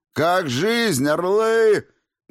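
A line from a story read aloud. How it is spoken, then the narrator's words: Loud bark. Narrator (Russian): гаркнул я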